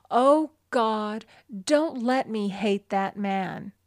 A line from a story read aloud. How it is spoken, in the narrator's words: She felt hatred and resentment taking complete possession of her, and she cried out